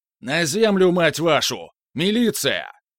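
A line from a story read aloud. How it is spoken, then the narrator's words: Deafening roar. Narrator (Russian): хмыкнул и оглушительно проревел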